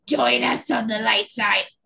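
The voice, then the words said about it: Palpatine impression, sick-sounding voice. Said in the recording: “That your Palpatine impression? ... Yes, it's my Palpatine in bed with the flu impression. ... That's very good.”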